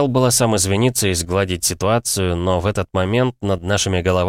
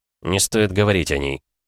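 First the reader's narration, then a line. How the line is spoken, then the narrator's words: Menacing. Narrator (Russian): грозно сказал я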